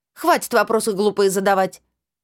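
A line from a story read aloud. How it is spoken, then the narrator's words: Barked. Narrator (Russian): Я рявкнула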